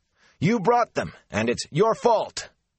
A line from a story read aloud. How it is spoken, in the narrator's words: there were shouts of